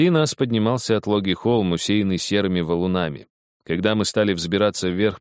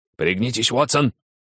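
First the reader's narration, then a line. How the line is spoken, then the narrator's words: Shout. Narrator (Russian): крикнул Холмс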